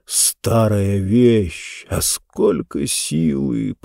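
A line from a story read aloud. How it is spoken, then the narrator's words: Muttered. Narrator (Russian): пробормотал он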